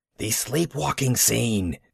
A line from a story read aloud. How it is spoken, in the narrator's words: Maud hissed insistently to us from the door